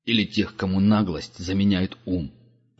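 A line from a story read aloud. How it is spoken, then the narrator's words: Grumbling raven. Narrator (Russian): проворчал ворон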